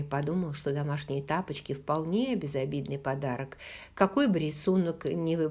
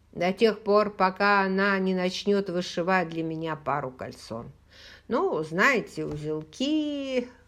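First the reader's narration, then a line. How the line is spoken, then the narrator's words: Laughing, then coughing. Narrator (Russian): Хэл рассмеялся и тут же сильно закашлялся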